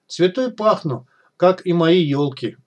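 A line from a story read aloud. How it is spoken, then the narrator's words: Joyful exclaim, manic laughter. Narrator (Russian): радостно воскликнул Снежок, захохотал, словно безумный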